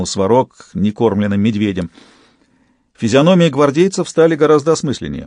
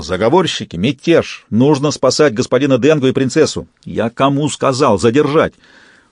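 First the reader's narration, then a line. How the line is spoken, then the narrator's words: Barked. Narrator (Russian): Не теряя времени, не тушуясь, Сварог рявкнул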